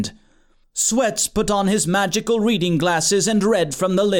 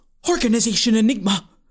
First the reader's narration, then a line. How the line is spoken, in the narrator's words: Floria gasped